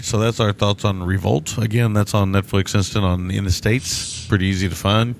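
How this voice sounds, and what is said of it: Odd, strained sore-throat voice. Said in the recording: “I don't know why I'm doing that voice this morning. I think because my throat kind of hurts.”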